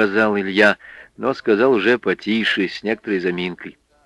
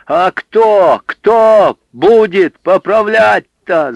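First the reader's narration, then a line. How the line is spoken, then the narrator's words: Frenzied yelling. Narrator (Russian): заорал он вне себя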